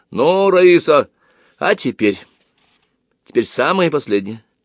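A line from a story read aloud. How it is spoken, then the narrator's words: Loud. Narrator (Russian): Он сказал громко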